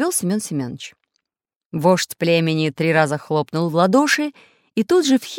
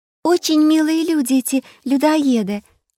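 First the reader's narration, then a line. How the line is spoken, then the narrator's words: Cheerful interjection. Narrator (Russian): радостно вставила Настенька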